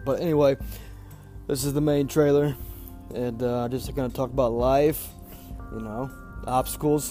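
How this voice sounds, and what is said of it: Sick voice, sounds like young girl. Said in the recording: “I'm sick. I sound like a fucking 10-year-old girl”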